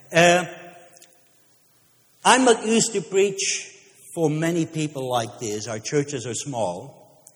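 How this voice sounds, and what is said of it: Speaks with a noticeable accent. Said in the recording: “Even with my accent, you accepted me.”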